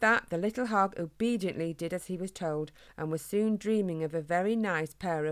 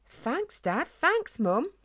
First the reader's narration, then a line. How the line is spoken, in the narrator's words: he said excitedly